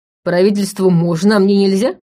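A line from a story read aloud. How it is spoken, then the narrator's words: Chuckling. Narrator (Russian): хохотнул Ваня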